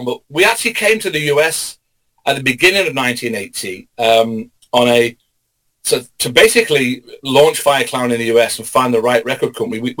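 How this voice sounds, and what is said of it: English accent. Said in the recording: “my English accent ... mate”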